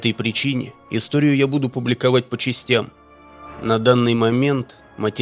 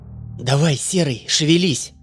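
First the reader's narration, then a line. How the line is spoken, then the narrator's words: Hoarse rasp. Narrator (Russian): хрипела Танька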